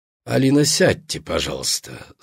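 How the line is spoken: Calm. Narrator (Russian): спокойно сказал кардинал

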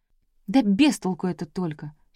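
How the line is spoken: Bitter sigh. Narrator (Russian): Клавка горько вздохнула

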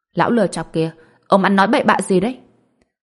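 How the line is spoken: Angry scolding shout. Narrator (Vietnamese): Lý Dài Dào tức giận quát mắng

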